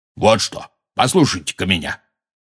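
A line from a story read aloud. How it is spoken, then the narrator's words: Said angrily. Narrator (Russian): сердито сказал Хагрид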